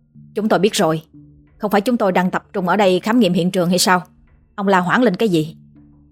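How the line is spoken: Mild snapping. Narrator (Vietnamese): anh gắt nhẹ

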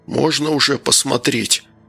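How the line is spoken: Hoarse rasp. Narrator (Russian): прохрипел Данил

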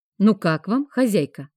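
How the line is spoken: Plain. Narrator (Russian): спросил Локи

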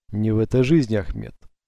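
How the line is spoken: Calm reply. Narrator (Russian): спокойно отозвался Эдсо

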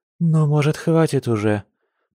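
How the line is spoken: Exhausted moan. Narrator (Russian): простонала она, чувствуя себя, будто по ней прошлись катком

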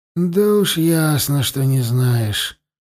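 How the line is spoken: Grumble. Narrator (Russian): проворчал Тулум

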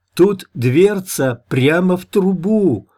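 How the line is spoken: Joyful shout from below. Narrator (Russian): радостно прокричала снизу русоволосая

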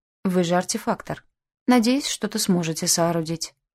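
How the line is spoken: Calm. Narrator (Russian): спокойно объяснил Альшер

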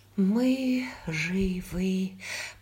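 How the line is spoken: Trembling repetition. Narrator (Russian): повторила Брианна Маккензи дрожащим голосом

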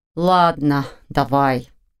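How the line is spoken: Resigned male. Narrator (Russian): обреченным тоном согласился он

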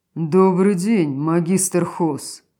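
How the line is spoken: Deep bass voice. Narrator (Russian): пробасил Ринтер Кеонтера

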